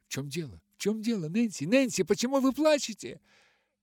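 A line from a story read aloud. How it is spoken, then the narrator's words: Exclamation. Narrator (Russian): воскликнула она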